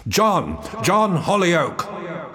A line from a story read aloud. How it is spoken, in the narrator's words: shouted with all the power of my lungs